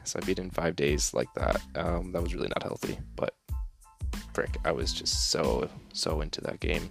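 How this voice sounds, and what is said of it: Quiet, hushed speaking voice. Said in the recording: “my voice is, like, really, like, quiet ... I'm just trying to be a little bit quieter”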